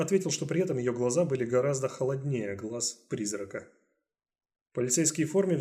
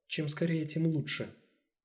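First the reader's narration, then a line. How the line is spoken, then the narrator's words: Calm. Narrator (Russian): Спокойно выдержав его взгляд, Амелия Сакс сказала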